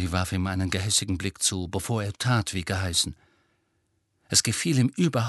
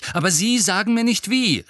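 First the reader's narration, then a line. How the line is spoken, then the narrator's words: Angry. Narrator (German): sagte Harry zornig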